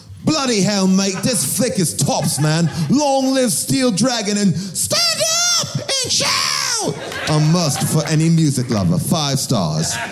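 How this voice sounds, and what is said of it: Put-on Cockney British accent. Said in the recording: “this one should be read in a Cockney British accent”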